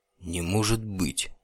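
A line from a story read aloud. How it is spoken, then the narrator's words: Whispered. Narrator (Russian): прошептал друид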